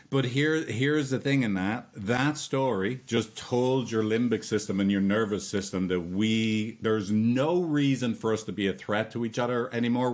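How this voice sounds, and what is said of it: Strong Irish accent. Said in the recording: “my silly accent ... Trademark accent ... Your accent's pretty strong ... You haven't met a lot of Irish people”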